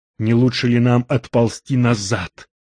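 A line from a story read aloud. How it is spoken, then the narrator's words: Whispered question. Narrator (Russian): шепотом спросил Макс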